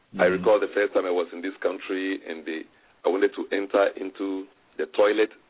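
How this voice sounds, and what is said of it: African-accented English. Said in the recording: “I have the best Americanese accent coming from Africa.”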